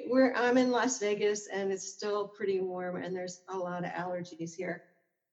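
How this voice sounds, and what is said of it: Slightly hoarse voice. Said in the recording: “my voice is a little hoarse. There's allergies.”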